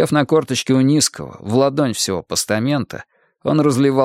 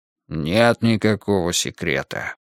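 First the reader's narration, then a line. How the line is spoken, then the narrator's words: Grumble. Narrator (Russian): буркнул усатый Семёныч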